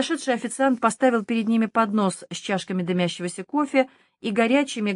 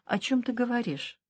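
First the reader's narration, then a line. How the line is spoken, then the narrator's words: Tense, worried question. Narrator (Russian): Хуанна спросила напряженным голосом, в котором слышалось беспокойство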